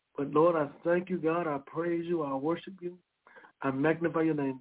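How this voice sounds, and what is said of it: Hoarse, strained voice. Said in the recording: “My voice, I know it's hoarse. You probably can barely hear me.”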